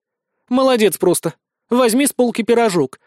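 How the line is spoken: Snapping petite woman. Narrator (Russian): огрызнулась миниатюрная блондинка

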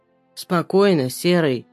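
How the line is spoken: Frightening hoarse voice. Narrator (Russian): прохрипел снова пугающий голос

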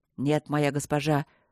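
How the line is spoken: Spoken through gritted teeth. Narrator (Russian): сквозь зубы проговорил он

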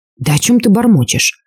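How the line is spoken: Indignant whisper. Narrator (Russian): возмущенно прошептал я

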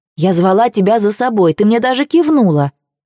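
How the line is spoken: Indignant. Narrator (Russian): возмущенно

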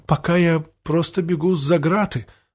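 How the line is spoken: Sighing. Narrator (Russian): вздохнул Андреас

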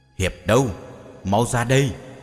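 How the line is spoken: Shout. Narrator (Vietnamese): Nghe tiếng hét

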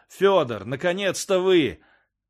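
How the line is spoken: Joyful shout. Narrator (Russian): крикнул радостно

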